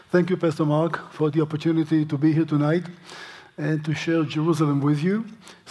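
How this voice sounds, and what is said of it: English with a foreign accent. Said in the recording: “It's English with a funny accent”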